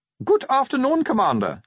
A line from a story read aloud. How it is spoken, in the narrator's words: said Otto Shriek cheerfully